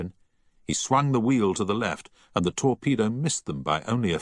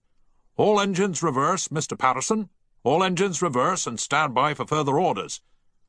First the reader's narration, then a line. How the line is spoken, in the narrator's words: the captain bellowed down the voice pipe